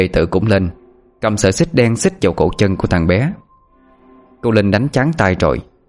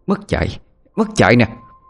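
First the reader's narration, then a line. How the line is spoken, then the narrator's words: Shouting. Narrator (Vietnamese): Cô hét lên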